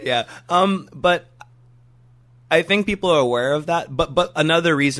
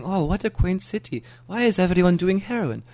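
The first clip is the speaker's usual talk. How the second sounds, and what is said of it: Put-on German accent. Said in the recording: “German tourist after German tourist saying... Sorry for that accent... Very good accent.”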